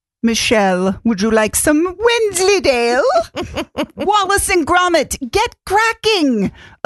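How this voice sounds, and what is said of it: Attempted Wallace accent impression. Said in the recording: “I can't do the accent.”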